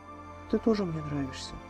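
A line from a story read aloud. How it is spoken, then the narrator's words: Soft reply. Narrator (Russian): тихонько ответила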